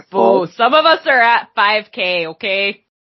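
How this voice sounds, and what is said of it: Strong regional accent coming out. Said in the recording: “You really are just embracing the accent now. ... It's coming out. ... it just brings it out of you.”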